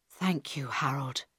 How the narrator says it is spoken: Carl whispered

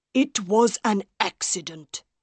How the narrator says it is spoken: Monsieur Armand said angrily

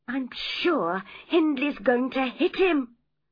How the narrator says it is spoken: cried Catherine

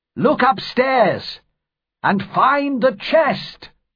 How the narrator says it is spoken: cried

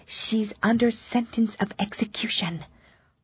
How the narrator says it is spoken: looked anxiously over his shoulder as he spoke, put his mouth close to her ear, and whispered

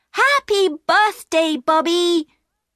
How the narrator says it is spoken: shouted happily

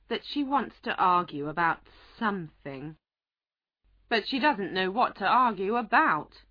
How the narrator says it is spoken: said the White Queen, shaking her head sadly

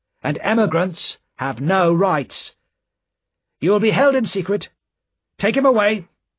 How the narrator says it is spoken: said the official sharply

